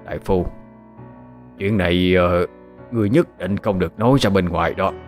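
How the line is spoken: Hoarse. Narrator (Vietnamese): y chợt khàn khàn giọng

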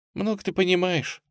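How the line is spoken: Quiet young woman. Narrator (Russian): тихо ответила девушка

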